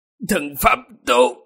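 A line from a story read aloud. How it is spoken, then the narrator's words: Hoarse voice. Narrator (Vietnamese): âm thanh của đạo nhân kia khàn khàn nói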